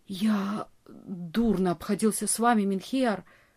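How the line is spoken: Male whisper. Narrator (Russian): прошептал он

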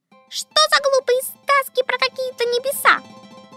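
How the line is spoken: Squeaky insect voices. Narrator (Russian): пищали комары

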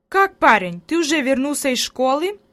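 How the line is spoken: Grandmother's exclamation. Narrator (Russian): воскликнула бабушка

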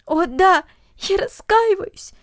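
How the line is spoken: Sobbing. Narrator (Russian): всхлипывала Люся

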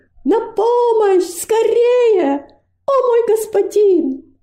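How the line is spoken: Screaming with all strength. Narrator (Russian): Робость изо всех сил закричала

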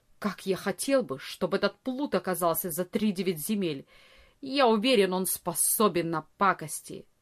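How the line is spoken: Angry. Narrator (Russian): Ария сердито сказал

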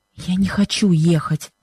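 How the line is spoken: Pained whisper. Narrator (Russian): шепнула она с выражением страдания

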